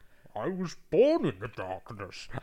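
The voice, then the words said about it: Bane villain impression voice. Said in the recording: “do a Bane impression”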